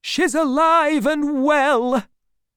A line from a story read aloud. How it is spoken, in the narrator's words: others shout out too